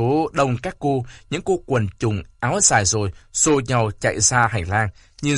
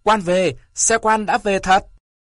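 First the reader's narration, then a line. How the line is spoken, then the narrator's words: Clamoring crowd. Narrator (Vietnamese): cả phòng nhao nhao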